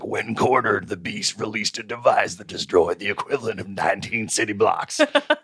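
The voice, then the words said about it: Imitates another person's voice. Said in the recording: “your Gary Busey voice ... My Busey sounds like my Nolte”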